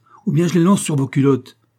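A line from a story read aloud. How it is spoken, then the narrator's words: Exclaimed. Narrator (French): s'écria leur maître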